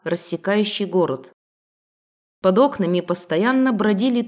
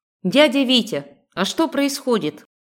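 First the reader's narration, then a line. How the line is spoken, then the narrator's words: Loud question from doorway. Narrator (Russian): С порога громко спросила я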